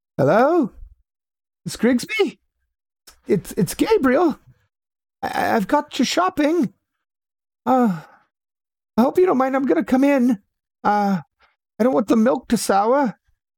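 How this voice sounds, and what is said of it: Put-on British accent. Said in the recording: “I don't know why I'm giving a British accent”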